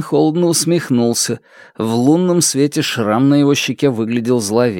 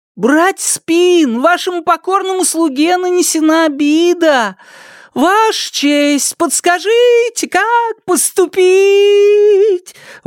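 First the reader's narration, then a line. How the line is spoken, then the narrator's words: High operatic singing. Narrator (Russian): Высоким голосом пропел Шунь, будто исполнял оперную арию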